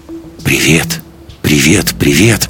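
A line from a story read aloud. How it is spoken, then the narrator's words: Whisper matching her tone. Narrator (Russian): прошептал ей в тон Лекс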